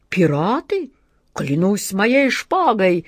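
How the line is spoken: Roaring old admiral. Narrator (Russian): взревел адмирал Колумб

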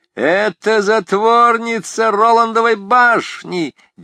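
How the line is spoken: Wild laughter. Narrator (Russian): дико захохотали они

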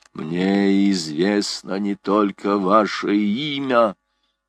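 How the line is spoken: Sepulchral voice. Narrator (Russian): ответил за могильным голосом человек в плаще

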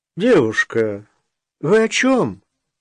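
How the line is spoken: Doctor's scoffing snort. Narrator (Russian): хмыкнул главврач

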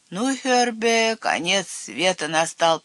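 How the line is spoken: Hoarse wheeze. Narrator (Russian): прохрипел Цвотель

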